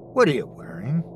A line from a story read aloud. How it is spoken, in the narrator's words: Chrissy said in a nonchalant voice